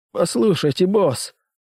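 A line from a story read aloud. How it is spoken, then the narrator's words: Nervous babble. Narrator (Russian): пролепетал мужчина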